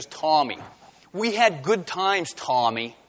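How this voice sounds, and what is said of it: Put-on New Jersey accent. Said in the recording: “everyone in New Jersey has a New Jersey accent”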